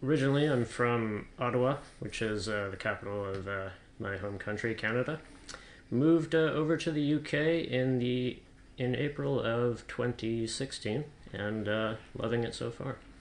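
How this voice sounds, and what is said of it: Canadian accent. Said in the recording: “as can be found by your accent”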